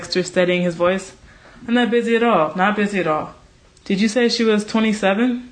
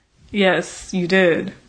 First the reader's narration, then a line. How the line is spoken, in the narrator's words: agreed Devlin dryly